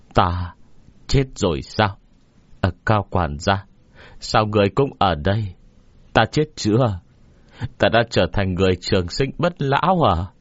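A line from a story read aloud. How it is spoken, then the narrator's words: Trembling voice. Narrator (Vietnamese): Trong khi nói, Tiêu Đại Lang run rẩy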